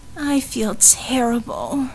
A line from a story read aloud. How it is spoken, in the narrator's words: Harmony groaned